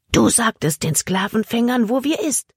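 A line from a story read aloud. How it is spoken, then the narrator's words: Cutting, furious whisper. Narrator (German): Emmas Flüstern war schneidend vor Wut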